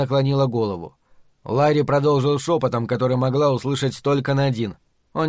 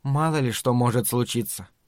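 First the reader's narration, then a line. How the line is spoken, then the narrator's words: Soft. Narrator (Russian): мягко заметила она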